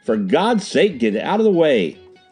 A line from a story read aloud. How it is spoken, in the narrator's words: he shouted